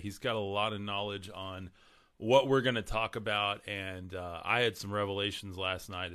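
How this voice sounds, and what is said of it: Hoarse, strained voice. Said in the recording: “I'm losing my voice today, so you guys bear with me”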